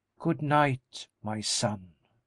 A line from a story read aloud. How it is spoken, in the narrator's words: she replied calmly